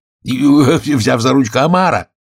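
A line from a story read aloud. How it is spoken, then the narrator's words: Shouted. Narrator (Russian): закричал Грифон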